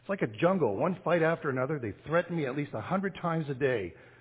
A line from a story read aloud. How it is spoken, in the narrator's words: cried the son